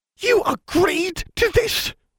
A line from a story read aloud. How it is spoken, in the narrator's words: she hissed